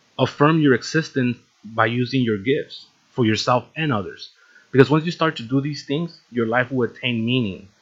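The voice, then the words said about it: Slight non-native English accent. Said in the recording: “I have a little bit of an accent. That's what happens when you don't speak English for like the first 8 years of your life.”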